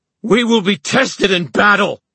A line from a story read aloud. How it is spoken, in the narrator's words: Horace screamed